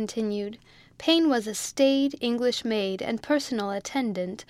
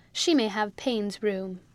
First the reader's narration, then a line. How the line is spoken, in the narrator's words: Emmy said